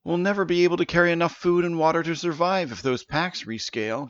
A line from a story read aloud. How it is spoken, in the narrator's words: Janice cried